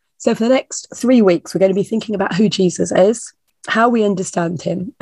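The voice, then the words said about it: Creaky, croaky voice. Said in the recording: “my voice is going to last out this morning... it's a bit creaky and a bit croaky... a nasty summer cold”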